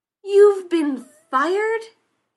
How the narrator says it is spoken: He shouted

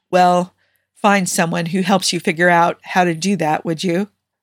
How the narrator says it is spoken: Steve chuckled, then said

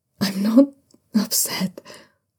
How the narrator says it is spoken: Zhao Yunlan mumbles shakily into Shunwei's chest

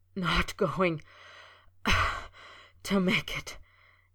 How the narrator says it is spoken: he gasped, shaking with the dagger-like pain

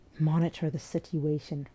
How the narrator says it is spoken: Ray mutters

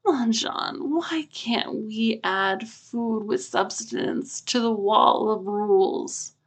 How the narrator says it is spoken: Ajahn whines

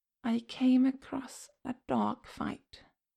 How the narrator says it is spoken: Damien whispers, the words coming unbidden to his lips as he screws his eyes shut, images of the night flashing in his mind

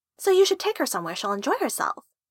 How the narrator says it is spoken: Honey said cheerfully

